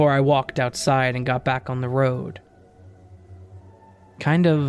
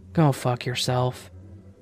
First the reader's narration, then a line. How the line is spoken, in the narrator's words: I just smirked to myself and whispered